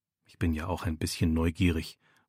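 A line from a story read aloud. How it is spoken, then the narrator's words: Murmur. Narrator (German): murmelt er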